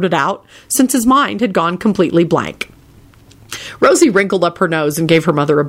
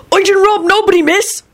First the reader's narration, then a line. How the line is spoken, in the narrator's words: Robbie blurted out frantically